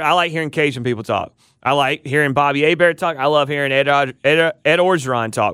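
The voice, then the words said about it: Country accent. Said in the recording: “my voice sounds, the country accent”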